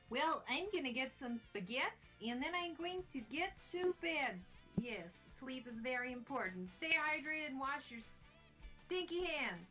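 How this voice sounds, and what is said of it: Good put-on Russian accent. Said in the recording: “That was a great Russian accent there.”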